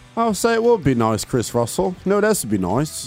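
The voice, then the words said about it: Put-on British accent. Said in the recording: “in the British accent. In the British boy accent.”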